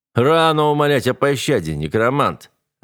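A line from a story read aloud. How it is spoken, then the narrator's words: Soldier laughing mockingly. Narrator (Russian): рассмеялся кто-то из солдат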